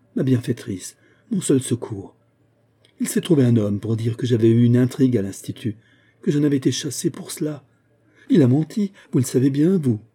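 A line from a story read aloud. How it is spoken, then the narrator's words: Despairing cry. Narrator (French): s'écria Ariane au désespoir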